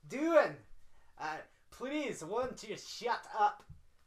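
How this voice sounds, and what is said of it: Bad put-on Scottish accent. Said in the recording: “a terrible Scottish accent ... that it's was terrible. Bad.”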